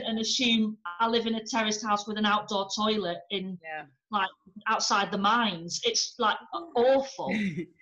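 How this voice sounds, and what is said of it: Northern English accent. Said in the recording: “ham up the Northern working class thing ... by my accent I must be class. I just hear this accent”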